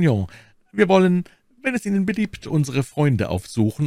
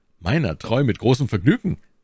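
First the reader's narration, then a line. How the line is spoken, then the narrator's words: Plain. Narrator (German): antwortete D'Artagnan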